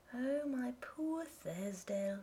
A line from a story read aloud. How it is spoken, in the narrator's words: she murmured